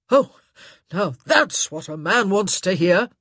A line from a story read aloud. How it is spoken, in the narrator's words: he sneered